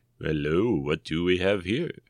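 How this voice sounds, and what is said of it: Imitated Lando character voice. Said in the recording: “my Chris Clemente Lando impression ... I can't do it as well as Chris”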